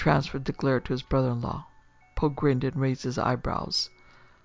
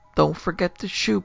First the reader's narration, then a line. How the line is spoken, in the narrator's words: Poe said brightly